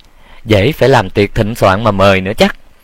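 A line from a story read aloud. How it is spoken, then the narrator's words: Cold sarcastic laugh. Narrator (Vietnamese): Quản gia cười nhạt mỉa mai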